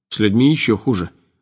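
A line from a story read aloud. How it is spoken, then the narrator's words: Grim joking. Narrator (Russian): мрачно пошутил Вадим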